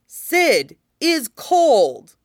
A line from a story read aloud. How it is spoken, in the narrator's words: he exclaims